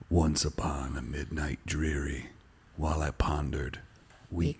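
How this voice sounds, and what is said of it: Spooky dramatic reading voice. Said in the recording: “Should I do it in a spooky voice? ... Yes, please.”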